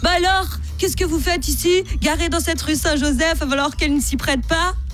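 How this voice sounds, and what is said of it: Put-on Belgian French accent. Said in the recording (French): “un accent belge... tous mes policiers, dans ma tête et dans ma vie, ils ont un accent belge”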